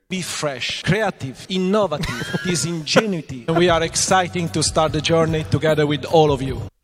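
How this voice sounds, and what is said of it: Italian accent. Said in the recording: “Alessandro Aluni Bravi, who has even less of a thick Italian accent than you”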